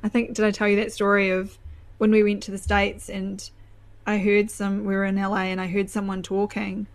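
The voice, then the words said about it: Flat New Zealand accent. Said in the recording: “all these Kiwis ... your accent is better than the Aussie ... Yours is similar, but it's flatter, and so then it's more pleasant on the ear”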